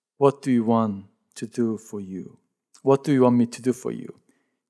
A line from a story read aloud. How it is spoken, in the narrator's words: asked him